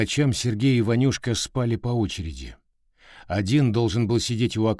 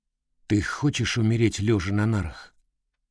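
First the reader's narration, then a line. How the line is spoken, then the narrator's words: Plain question. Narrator (Russian): спросил Сергей Ванюшку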